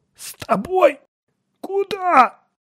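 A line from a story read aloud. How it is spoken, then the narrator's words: Hoarse rasp. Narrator (Russian): прохрипел ученый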